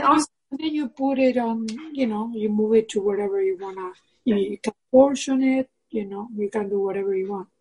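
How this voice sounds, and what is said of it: Hispanic Argentine accent. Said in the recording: “I'm noticing your accent. ... It sounds Hispanic to me. ... I'm from Argentina.”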